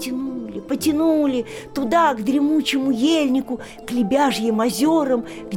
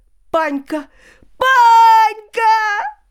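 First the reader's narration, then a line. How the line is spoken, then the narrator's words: Shouting. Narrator (Russian): закричала Надька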